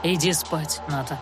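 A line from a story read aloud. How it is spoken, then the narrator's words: Soft reply. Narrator (Russian): мягко откликнулся Анхайлик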